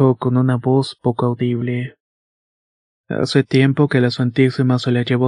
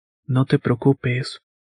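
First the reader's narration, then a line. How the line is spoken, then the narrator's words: Plain. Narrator (Spanish): dijo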